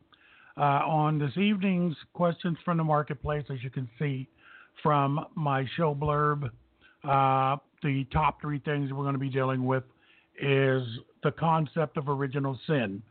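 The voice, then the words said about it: Slightly hoarse voice. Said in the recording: “Little hoarse voice”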